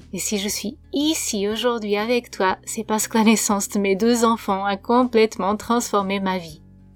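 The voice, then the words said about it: Portuguese accent speaking French. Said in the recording (French): “si tu t'interroges sur mon accent, je suis portugaise”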